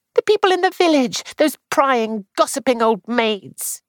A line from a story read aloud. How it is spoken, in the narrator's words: Clarice said sharply